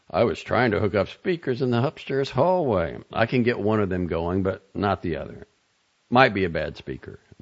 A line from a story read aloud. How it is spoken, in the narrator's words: Nelson said